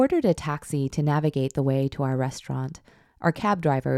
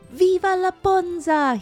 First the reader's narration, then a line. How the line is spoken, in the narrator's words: howled